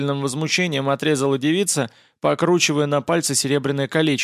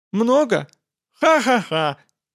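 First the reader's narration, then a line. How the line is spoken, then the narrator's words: Mirthless laugh. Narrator (Russian): рассмеялась она совсем не смешным голосом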